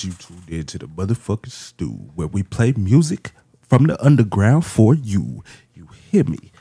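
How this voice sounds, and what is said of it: Announcer-style radio voice. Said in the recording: “That was that was radio voice.”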